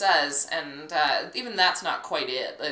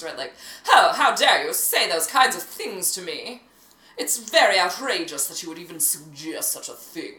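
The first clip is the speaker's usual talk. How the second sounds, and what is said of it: Posh, dramatic old-movie accent. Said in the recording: “It sounds like such a brassy dame ... That's a little bit more Americanized ... It's so fakey, like, it's so posh ... It just communicates emotion with such dramatics”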